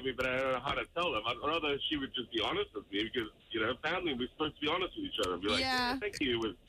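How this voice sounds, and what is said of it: Speaks with a noticeable accent. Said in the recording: “the accent, like, it just sounds a lot ... better”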